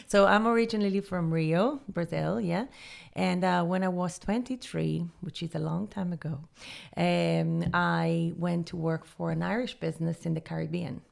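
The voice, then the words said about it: Noticeable foreign accent. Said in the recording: “Tell us about the accent.”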